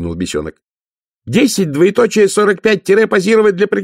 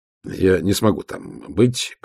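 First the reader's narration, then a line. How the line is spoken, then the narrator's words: Muttered. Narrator (Russian): пробормотал он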